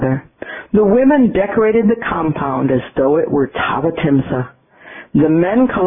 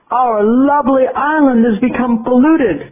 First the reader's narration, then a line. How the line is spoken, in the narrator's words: cried one young Deva